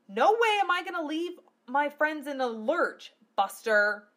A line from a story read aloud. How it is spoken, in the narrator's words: Lena yelled